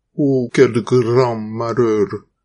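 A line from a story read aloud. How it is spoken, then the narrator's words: Old man sighing. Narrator (French): soupire le vieil homme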